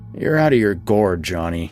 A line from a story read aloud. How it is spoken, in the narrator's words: he grumbled